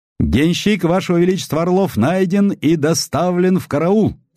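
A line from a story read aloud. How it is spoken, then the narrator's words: Very loud officer's shout. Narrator (Russian): крикнул дежурный офицер так громко, как, вероятно, вахтенные блуждающих кораблей кричат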